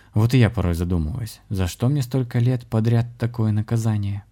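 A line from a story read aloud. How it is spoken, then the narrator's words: Quiet musing. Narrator (Russian): негромко подумал шаман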